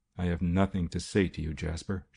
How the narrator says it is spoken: she said coldly

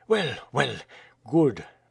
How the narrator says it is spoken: murmured Alcide Jolivet

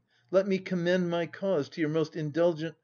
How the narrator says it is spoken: pleaded he

